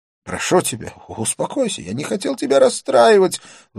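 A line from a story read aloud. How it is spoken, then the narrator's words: Pleading. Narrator (Russian): взмолился он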